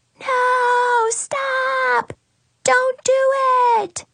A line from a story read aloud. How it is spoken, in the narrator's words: a little voice is screaming